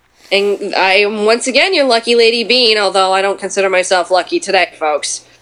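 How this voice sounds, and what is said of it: Stuffy, congested Muppet-like voice. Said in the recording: “Do you have a cold? ... I have a wicked cold. I sound like a Muppet today.”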